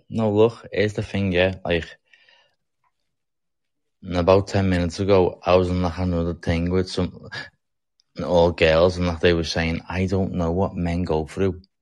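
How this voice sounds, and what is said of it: Thick, hard-to-understand accent. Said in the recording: “my accent is like the hardest to understand ... that accent is really thick”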